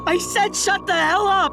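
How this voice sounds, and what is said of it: Yelling angrily. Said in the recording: “Why are you yelling at me?”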